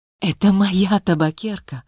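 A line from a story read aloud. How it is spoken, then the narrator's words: Breathless agitated exclamation. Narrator (Russian): воскликнула Варя, почувствовав, как от нахлынувшего нового прилива волнения ей просто не хватало воздуха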